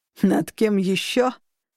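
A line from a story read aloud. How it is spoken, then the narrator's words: Desperate growl-like laugh. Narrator (Russian): Голос дяди больше походил на отчаяние рычания, чем на смех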